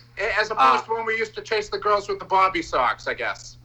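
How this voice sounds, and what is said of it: Thick accent. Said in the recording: “your accent is so thick.”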